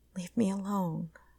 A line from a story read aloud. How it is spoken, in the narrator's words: Connie whispered